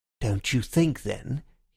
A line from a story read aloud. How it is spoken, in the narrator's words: he said in a dangerous voice